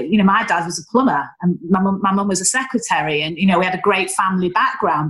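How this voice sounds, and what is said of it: Northern English accent. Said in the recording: “my Northern accent”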